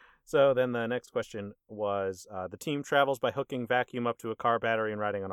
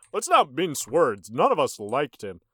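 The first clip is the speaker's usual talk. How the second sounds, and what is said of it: Cartoon tiger mascot voice. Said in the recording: “doing a Tony the Tiger impression”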